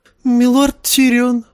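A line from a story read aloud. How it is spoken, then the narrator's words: Exclaiming. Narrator (Russian): воскликнул он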